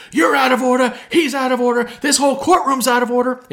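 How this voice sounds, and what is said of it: Al Pacino impression, shouting. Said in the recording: “everyone famously does the Al Pacino impersonation”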